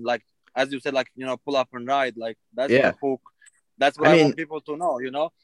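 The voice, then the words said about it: Non-native English accent. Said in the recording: “I have an accent and I'm not from here”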